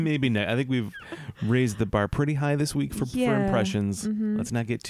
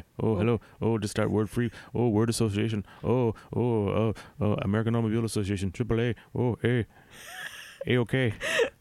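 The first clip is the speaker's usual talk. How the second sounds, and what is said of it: Imitates another person's voice. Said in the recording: “my Robin Williams impression”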